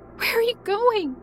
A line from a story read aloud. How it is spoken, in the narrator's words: I asked desperately in tears